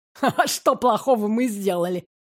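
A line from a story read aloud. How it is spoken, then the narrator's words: Snorting. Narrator (Russian): хмыкнул мистер Денвиш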